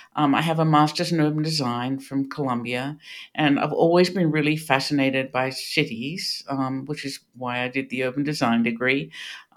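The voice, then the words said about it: Australian accent. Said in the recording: “you can hear this is not a Pittsburgh accent. ... I grew up in Australia”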